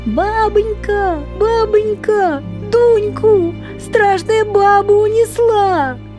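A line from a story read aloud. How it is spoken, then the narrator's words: Shouting. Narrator (Russian): Закричала Море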